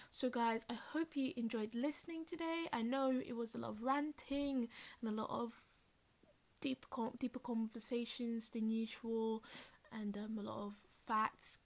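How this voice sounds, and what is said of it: Smooth radio announcer voice. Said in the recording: “change into my smooth radio voice”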